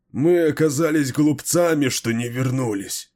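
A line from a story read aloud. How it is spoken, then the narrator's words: Moaning. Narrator (Russian): простонал Банлид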